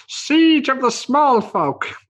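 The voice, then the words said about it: Weird halfling-like character voice. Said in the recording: “I'm going to call it in that weird halflingy voice.”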